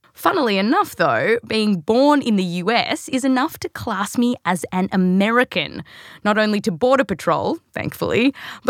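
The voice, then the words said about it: Australian accent. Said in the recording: “because of this accent ... the accent's actually real, but I was born here, raised in Australia”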